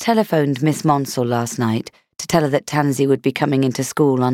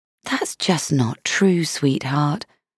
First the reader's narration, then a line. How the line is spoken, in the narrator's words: I said gently